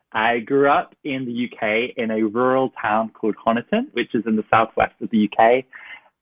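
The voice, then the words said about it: British English accent. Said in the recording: “We obviously know from your accent, I'm sure our guests have picked up, that you were not born and bred in the US ... British here”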